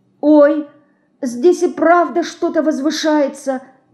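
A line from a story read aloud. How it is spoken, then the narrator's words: Frightened speech. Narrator (Russian): Испуганно говорит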